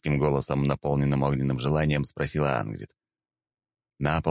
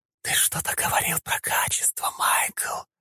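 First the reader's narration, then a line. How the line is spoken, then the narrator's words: Hot sultry whisper. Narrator (Russian): Жарко прошептала демонесса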